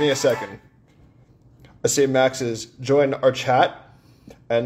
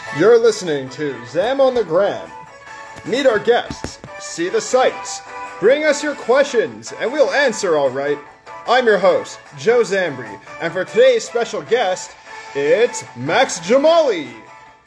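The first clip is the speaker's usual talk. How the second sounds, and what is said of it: Cheesy fake radio announcer voice. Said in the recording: “cheesy fake radio voice”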